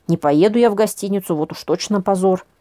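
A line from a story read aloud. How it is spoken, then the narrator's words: Snorting. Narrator (Russian): фыркнула я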